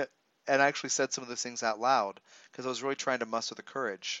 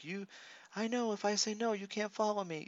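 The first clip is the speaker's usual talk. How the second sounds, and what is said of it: Small squeaky voice. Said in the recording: “my little like squeaky voice.”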